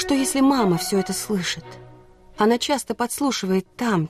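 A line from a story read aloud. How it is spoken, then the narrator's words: Quiet. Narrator (Russian): тихо сказала я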